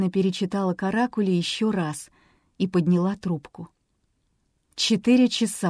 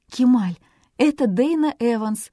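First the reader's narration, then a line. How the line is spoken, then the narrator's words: Excited shout. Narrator (Russian): взволнованно прокричала Дейна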